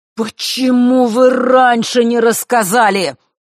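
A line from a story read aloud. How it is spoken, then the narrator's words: Sudden thunderous voice. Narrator (Russian): вдруг прогремел он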